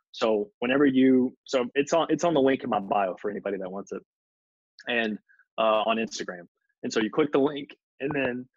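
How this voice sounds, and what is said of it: Hoarse, failing voice. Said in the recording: “losing my voice.”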